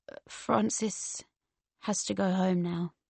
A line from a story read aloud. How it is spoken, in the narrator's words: Very slowly, zombie-like, he said